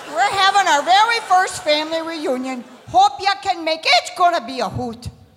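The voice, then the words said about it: Exaggerated Wisconsin accent. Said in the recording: “They typed the accent in the email, I swear.”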